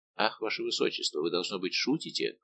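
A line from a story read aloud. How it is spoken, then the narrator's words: Trembling mutter. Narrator (Russian): пробормотал Де Гиш дрожащим голосом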